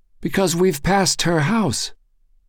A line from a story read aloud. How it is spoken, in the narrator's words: exclaimed Lázaro